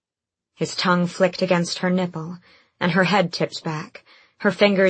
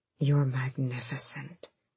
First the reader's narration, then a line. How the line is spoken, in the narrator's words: he murmured onto her lips